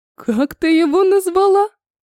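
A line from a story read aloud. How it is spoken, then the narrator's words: Laughing. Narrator (Russian): рассмеялась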